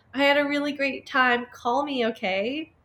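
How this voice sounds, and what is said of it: Sweet, innocent-sounding voice. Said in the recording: “said in my sweetest voice”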